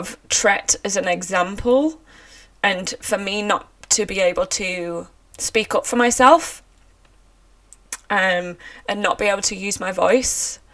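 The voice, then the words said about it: Emotional, raw voice. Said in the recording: “as you can tell by my voice, it's a very emotional subject for me and it's very raw”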